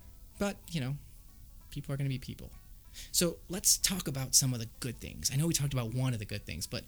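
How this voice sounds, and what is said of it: Usual voice. Nothing is said of it.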